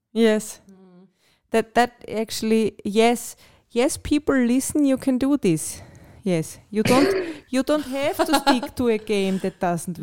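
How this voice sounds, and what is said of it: Austrian accent. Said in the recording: “my Austrian accent ... Very good accent.”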